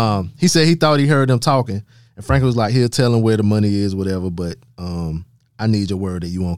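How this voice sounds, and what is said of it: Usual voice. Nothing is said of it.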